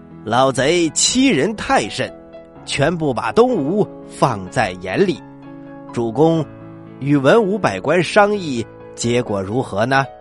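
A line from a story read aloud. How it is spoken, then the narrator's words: Laughing. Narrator (Chinese): 周瑜笑了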